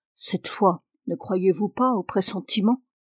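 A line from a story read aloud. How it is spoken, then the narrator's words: Murmured. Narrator (French): J'ai murmuré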